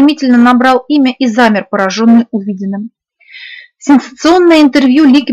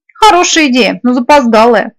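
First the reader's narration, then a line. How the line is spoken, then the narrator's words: Grumbling. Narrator (Russian): пробурчала Эри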